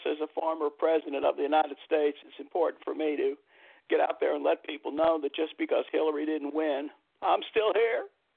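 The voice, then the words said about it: Imitates another person's voice. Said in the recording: “How in the world did you get started doing impersonations?”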